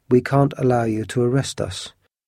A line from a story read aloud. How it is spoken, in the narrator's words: said Athos calmly